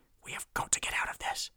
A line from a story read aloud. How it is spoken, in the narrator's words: hissed Mulch